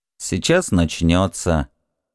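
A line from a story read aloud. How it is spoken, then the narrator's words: Very calm, flat, in unison. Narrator (Russian): очень спокойно и как-то бесцветно сказали в один голос Нодачи и Асахиру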